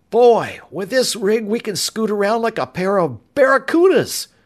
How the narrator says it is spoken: he exclaimed

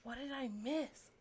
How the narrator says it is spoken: Cherie whispered to Anna

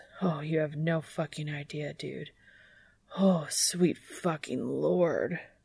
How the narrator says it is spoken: Dean mutters between groans

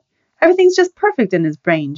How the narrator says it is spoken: Joni said sharply

